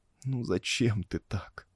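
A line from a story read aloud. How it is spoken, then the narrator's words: Moaning. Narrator (Russian): Застонала Режина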